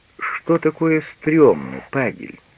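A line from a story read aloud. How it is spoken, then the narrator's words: Gentle question. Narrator (Russian): мягко спросил Штудман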